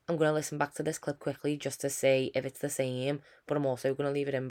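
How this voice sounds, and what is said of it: Voice with a cold, heavy breathing. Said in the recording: “I've got a bit of a cold, I think. I'm breathing really heavily ... all you could hear was me breathing”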